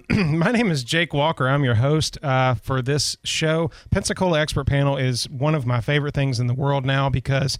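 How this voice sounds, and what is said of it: Froggy, throat-clearing husky voice. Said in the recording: “I have a frog in my throat.”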